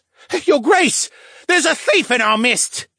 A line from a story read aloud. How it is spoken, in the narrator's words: a merman cried out